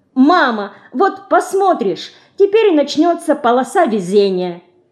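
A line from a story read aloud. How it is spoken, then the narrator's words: Cheerful girl's shout. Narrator (Russian): Поздно ночью, когда все усталые и счастливые укладывались наконец в свои собственные кровати, Динка вдруг весело крикнула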